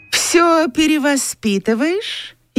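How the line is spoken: Snide question. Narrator (Russian): Ехидно спросила Катя

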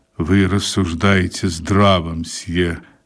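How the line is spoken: Soft, heartfelt. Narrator (Russian): сказала она проникновенным тихим голосом

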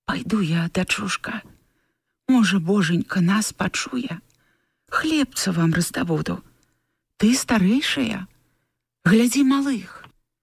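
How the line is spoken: Quiet whisper. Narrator (Belarusian): яна ціха прашаптала палінцы

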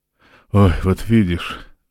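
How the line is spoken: Sighed. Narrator (Russian): вздохнула Роланда

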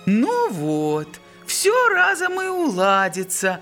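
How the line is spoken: Exclaiming. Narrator (Russian): воскликнул Флоран

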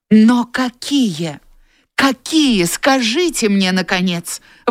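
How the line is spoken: Exclaimed. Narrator (Russian): воскликнула

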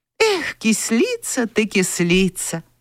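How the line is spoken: Tender, motherly. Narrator (Russian): по-матерински ласково сказала Вера

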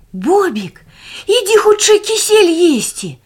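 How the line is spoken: Shout. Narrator (Russian): закричал Барбос

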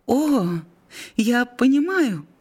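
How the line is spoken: Exclamation. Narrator (Russian): воскликнула она

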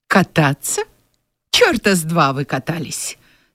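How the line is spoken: Cold. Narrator (Russian): сказал также холодно

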